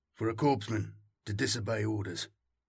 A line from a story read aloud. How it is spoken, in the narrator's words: Arvo murmured, so she had to strain to hear him